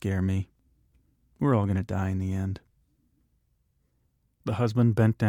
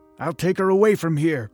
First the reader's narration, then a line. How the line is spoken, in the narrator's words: the husband kept shouting